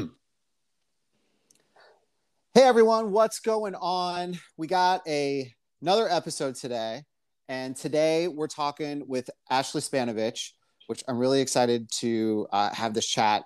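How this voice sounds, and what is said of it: Upbeat, pumped-up podcast host voice. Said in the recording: “podcast voice ... I gotta sound so pumped all the time.”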